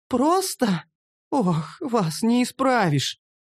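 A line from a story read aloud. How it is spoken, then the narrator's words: Sighing female gnome. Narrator (Russian): вздохнула гномка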